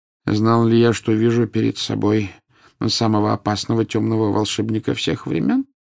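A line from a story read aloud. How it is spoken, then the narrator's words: Plain question. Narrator (Russian): спросил Дамблдор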